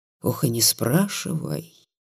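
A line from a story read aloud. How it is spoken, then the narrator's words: Dejected voice. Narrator (Russian): упавшим голосом сказал Ванька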